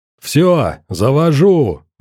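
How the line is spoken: Yell. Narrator (Russian): заорал Вульф

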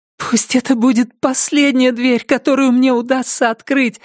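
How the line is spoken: Pleading. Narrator (Russian): взмолилась она

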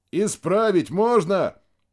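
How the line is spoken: Shouted reply. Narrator (Russian): прокричал Максим в ответ

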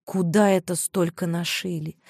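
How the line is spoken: Sad, to herself. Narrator (Russian): грустно спросила сама себя Мариша

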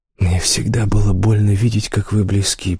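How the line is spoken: Whisper. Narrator (Russian): прошептал он

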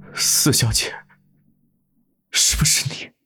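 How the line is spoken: Hoarse, deeply tender voice. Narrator (Chinese): 裴景山 声音沙哑，包含着浓得化不开的情意

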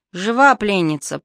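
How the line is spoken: Slightly nasal voice. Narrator (Russian): произнес немного гнусавый голос

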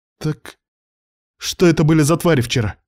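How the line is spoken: Sharp accusing question. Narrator (Russian): резко спросила Лида, будто моя вина в том, что они появились

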